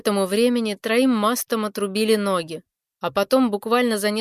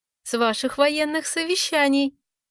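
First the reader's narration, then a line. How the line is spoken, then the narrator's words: Girl giggling. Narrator (Russian): хихикнула девочка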